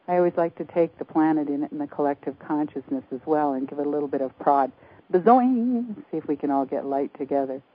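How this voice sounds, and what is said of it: Breathless, fast speech. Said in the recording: “I'm out of breath. I must have been talking very fast.”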